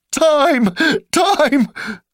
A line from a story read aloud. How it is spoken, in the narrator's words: came out with a sudden squeal